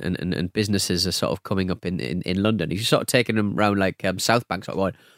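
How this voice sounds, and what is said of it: Usual voice. Nothing is said of it.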